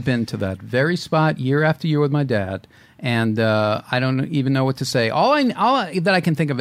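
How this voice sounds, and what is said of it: Usual voice. Nothing is said of it.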